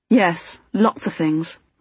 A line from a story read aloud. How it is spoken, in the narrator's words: I said firmly